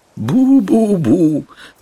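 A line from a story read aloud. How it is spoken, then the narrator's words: Through gritted teeth. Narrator (Russian): добавил сквозь зубы Панурк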